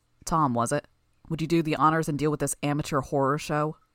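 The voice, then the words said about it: Low voice. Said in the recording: “spoke in a low voice”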